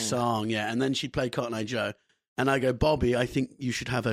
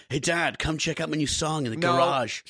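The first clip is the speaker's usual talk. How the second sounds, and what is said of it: Imitates another person's voice. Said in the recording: “She's going to sound like me... do that voice”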